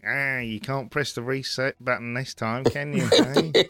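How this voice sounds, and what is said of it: Techie, nerdy character voice. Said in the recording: “Is that northern accent again? ... No, that was more of a sort of techie, kind of nerdy.”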